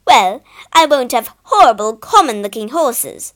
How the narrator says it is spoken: snapped Lady Richmore

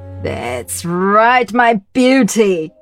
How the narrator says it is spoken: cried the princess

